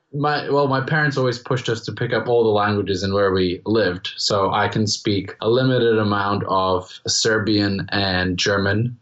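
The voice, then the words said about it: Strongly Americanized international-school English accent. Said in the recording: “the reason I have an American accent ... I wouldn't say it's like a per se American accent, but definitely American, strongly Americanized accent”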